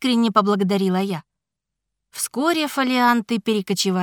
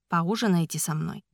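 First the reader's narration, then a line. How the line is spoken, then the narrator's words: Plain. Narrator (Russian): спросил он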